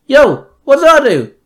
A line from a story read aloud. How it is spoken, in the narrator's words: Robin yelled